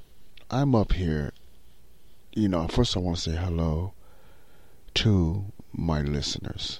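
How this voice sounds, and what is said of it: Quiet, soft-spoken voice. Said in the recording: “in his quiet voice”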